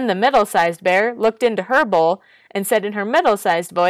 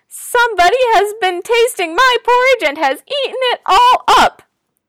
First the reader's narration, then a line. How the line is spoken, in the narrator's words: the wee little bear ... cried in his wee little voice